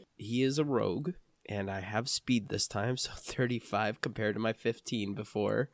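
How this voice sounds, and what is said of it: Hoarse, croaky voice. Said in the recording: “I'm kind of hoarse. ... it'd just come out like really croaky”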